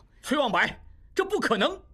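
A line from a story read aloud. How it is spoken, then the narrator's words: Loud, desperate cry. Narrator (Chinese): 应济一时真是百口莫辩，大声叫道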